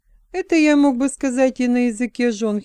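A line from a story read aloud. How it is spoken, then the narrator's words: Giggling. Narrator (Russian): хихикнул человек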